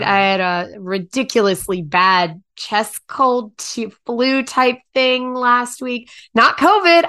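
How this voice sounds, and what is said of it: Husky voice from illness. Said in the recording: “I can still hear it in my voice, too. Like, it's not as husky as it usually is. Or maybe it's huskier. ... No, it's huskier. ... Definitely huskier. ... different volume than usual”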